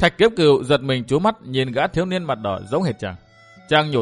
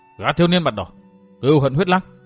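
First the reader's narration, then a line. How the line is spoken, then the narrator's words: Exclaiming. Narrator (Vietnamese): Hai tên cao thủ kêu lên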